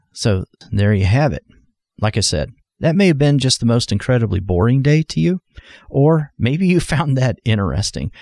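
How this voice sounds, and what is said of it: Voice hoarse from a cold. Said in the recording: “I'm working on a cold, I think, something that's affecting my throat or my voice just a little bit”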